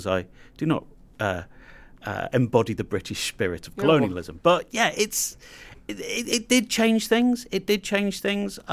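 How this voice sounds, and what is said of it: British accent. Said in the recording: “as you can probably tell from my accent, I'm not from the United States”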